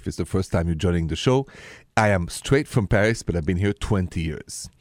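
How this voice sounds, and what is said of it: French accent. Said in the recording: “The accent, by the way, is French.”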